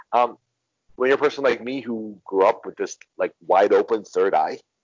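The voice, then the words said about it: American English accent. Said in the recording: “my accent, my English language accent, pretty much lets you know I'm from the U.S.”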